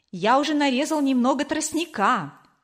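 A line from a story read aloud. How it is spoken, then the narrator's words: Joyful. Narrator (Russian): радостно сказал Кор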